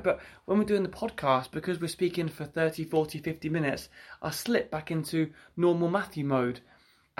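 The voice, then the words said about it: Northampton English accent. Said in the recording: “It's that Northampton accent.”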